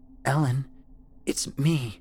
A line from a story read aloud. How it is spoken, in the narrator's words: she croaked, barely speaking above a whisper